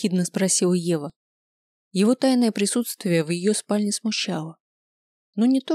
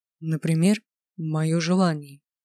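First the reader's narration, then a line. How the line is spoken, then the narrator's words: Low voice. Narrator (Russian): низким голосом произнес Грайнер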